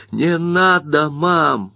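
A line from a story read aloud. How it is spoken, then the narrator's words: Inner groan. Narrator (Russian): мысленно простонал Бобби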